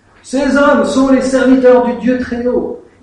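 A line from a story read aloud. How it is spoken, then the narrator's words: Shouting. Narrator (French): en criant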